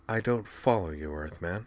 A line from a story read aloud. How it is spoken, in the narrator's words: she said dryly